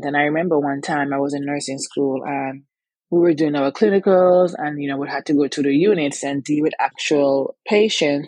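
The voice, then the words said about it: Antiguan accent. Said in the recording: “if you hear an accent, yes, I am from Antigua. I have it.”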